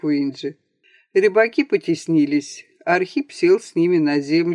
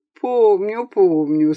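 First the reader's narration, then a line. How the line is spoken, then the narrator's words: Laughing. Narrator (Russian): снова засмеялся Панас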